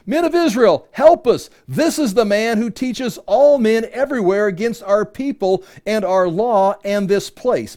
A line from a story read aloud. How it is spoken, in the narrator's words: shouting